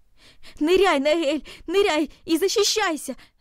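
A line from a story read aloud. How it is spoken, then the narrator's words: Shout. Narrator (Russian): закричал он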